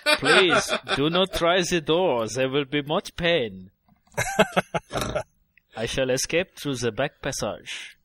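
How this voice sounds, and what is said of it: Put-on comedic French accent. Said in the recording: “That's Allo Allo. ... I thought you were doing like a Clouseau. ... all French accents are the same ... exactly the same French accent”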